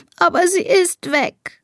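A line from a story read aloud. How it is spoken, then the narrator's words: Sobbing. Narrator (German): schluchzt Elisa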